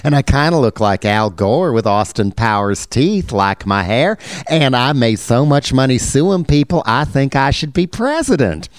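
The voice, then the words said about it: Mock Southern drawl imitating John Edwards. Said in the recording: “Hi, I'm John Edwards, and I have this cute little accent, just like the Andy Griffith Show”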